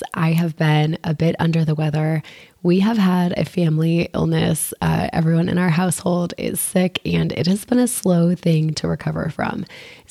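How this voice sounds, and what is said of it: Hoarse, froggy sick voice. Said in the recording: “You can probably hear it in my voice. ... I sound pretty froggy today ... despite the froggy voice”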